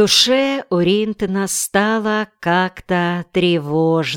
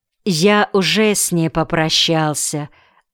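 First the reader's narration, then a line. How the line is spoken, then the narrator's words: Plain. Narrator (Russian): ответил Саша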